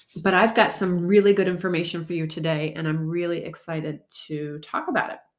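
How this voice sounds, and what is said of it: Congested, stuffy-nosed voice. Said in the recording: “Forgive me if I sound a little congested. ... I had a cold last week and I'm just recovering from it.”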